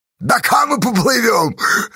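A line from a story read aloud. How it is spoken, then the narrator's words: Playful shout. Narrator (Russian): задорно крикнул Асташа Чупря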